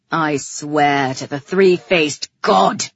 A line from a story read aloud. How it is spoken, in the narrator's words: he growled at me